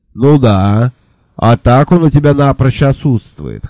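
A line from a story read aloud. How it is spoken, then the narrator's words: Snort. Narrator (Russian): хмыкнул Джуффин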